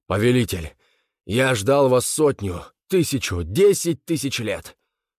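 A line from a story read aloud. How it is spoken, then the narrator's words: Hoarse shout. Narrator (Russian): хрипло крикнул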